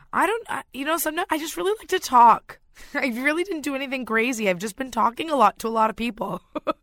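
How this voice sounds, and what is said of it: Slightly raspy voice. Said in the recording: “You've got a good radio voice, I think... Well, today it's a bit raspy”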